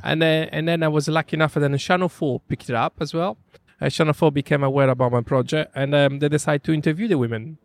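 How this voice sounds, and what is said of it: Italian accent. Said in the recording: “everyone can tell from your accent, wonderful Italian name. Born and brought up in Sardinia”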